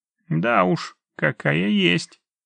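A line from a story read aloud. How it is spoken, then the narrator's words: Grumbling officer. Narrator (Russian): пробурчал майор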